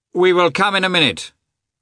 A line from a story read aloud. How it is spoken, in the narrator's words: Vronsky shouted